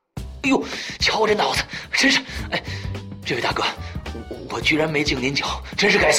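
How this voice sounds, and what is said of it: Usual voice. Nothing is said of it.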